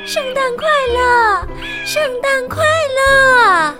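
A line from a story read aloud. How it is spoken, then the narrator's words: Seagull calling out. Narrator (Chinese): 一只大大的红嘴海鸥…叫道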